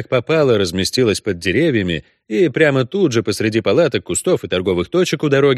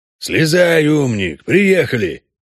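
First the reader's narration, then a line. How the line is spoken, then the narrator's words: Grumbled. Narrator (Russian): пробурчал Трамп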